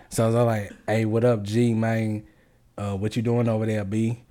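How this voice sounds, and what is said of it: Put-on street slang accent. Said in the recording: “add your, like, you know, your little hood accent to it”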